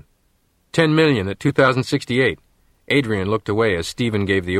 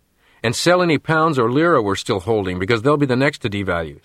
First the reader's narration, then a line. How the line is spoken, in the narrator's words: said Nat